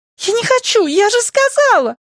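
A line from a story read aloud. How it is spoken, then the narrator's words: Shouting. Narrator (Russian): закричала она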